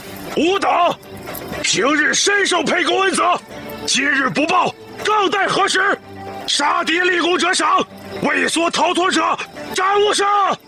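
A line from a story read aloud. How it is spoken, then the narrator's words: Loud command. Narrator (Chinese): 高声道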